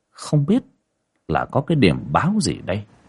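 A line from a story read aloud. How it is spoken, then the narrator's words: Shocked group muttering. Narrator (Vietnamese): Mọi người kinh hãi, lẩm bẩm nghĩ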